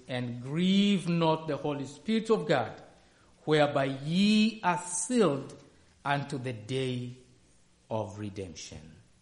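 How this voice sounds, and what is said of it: Speaks with a noticeable accent. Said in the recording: “That's my accent”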